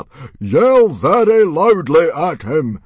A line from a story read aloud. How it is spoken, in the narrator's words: Stoic shouted very loudly